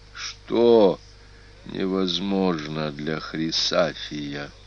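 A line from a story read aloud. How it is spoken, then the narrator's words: Grim whisper. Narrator (Russian): Мрачно прошептал Прииск сенатору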